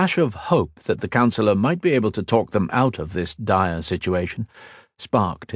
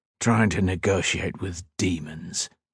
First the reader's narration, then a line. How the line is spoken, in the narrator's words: answered grimly